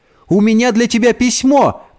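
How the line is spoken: Shouting into darkness. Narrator (Russian): крикнула она в темноту

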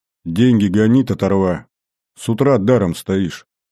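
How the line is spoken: Stern demand. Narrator (Russian): строго потребовал

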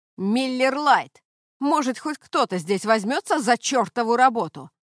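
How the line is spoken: Shouting again. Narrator (Russian): снова прокричал парень

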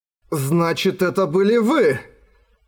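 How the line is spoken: Exclaimed. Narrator (Russian): воскликнул Эрагон

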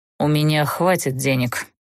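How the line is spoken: Amused condescending snort. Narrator (Russian): снисходительно хмыкнул позабавленный этой болтовнёй Даггард

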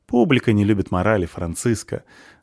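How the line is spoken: Laughing. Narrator (Russian): рассмеялся Полчик

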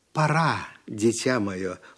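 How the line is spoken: Tender voice. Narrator (Russian): ласково сказала она

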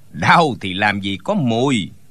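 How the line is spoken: Sneering laugh. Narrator (Vietnamese): Tên giúp việc trong tiệm tạp hóa bỗng cười khẩy một tiếng rồi nói

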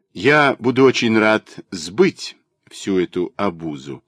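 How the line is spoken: Calm, offhand. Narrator (Russian): спокойно и небрежно сказал Егор Александрович

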